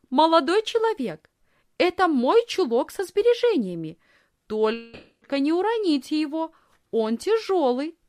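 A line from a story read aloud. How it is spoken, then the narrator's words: Loud. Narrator (Russian): Лисхин громко сказала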